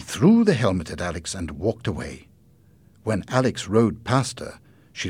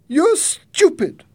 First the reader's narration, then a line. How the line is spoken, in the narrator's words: Jenny shouted